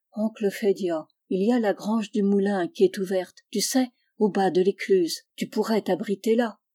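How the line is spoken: Low voice. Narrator (French): Je lui dis, à voix basse

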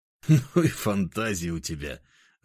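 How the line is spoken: Laughing. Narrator (Russian): рассмеялся я

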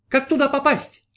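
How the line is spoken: Shouting. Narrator (Russian): закричал новорожденный 19-й, уже исполненный знания

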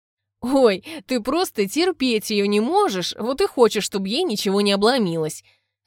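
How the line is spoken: Languid voice, laughing. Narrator (Russian): рассмеялась обладательница томного голоса

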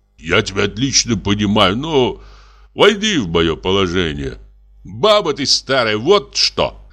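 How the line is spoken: Guffawing. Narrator (Russian): Дьякон захохотал

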